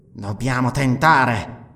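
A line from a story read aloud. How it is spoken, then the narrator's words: Panting. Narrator (Italian): ansimò Nabonidus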